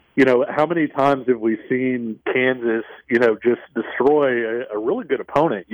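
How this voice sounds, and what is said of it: Bad Bill Self impression. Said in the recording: “bad Bill Self impersonation”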